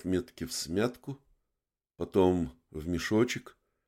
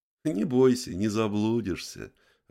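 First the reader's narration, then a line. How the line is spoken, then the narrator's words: Laughing. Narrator (Russian): рассмеялась левая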